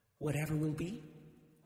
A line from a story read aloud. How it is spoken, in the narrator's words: she whispered